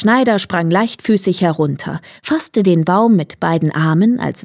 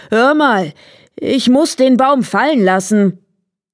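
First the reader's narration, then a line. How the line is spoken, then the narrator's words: Exhausted giant calling out. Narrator (German): Der Riese, nachdem er die schwere Last ein Stück geschleppt hatte, konnte nicht weiter und rief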